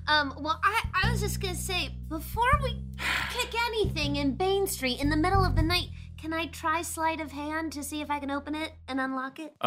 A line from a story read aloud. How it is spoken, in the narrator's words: Lorzach chirps